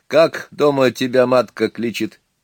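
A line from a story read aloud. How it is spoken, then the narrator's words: Asking after laughing. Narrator (Russian): кто-то из гостей, отсмеявшись, спросил Гальченко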